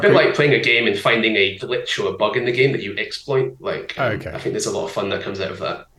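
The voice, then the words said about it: British accent. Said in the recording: “I'm assuming you're British by your accent”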